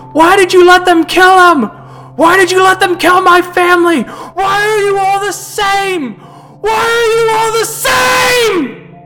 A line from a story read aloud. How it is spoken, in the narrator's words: you hear him screaming